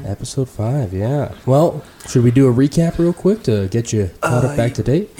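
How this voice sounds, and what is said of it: Congested, soothing radio-like voice. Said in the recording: “I'm dealing with a little bit of a head cold ... it's a good, soothing radio voice you got going.”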